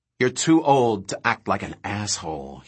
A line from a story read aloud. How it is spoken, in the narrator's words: he said quietly